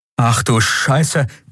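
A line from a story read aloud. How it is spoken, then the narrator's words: Sudden panting. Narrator (German): keuchte Kai plötzlich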